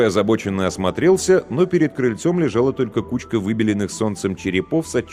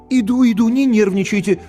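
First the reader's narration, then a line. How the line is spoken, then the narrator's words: Guilty but unafraid pleading. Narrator (Russian): Виновато, но без тени испуга взмолился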